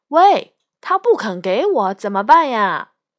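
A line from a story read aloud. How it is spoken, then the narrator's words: Raised voice shouting. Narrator (Chinese): 那个借梳子的人高抬了嗓门，对同伴喊道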